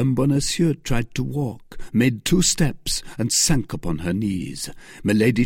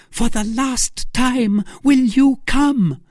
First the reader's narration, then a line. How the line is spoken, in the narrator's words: cried Milady